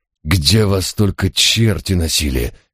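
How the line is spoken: Angry growl. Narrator (Russian): сердито прорычал я

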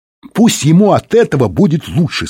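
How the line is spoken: Said, then ringing shout. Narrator (Russian): сказал он и звонко закричал

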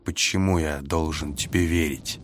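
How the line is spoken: Gentle question. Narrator (Russian): мягко спросил я

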